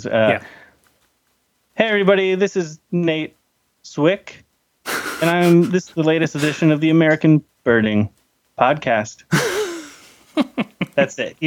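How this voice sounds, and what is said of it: Impression of podcast host Nate Zwick. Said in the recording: “What's your impression of me?”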